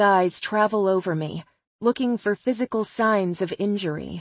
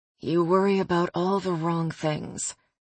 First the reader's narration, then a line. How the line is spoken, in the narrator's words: he mumbles, mostly to himself